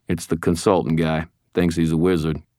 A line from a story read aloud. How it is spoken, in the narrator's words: snorted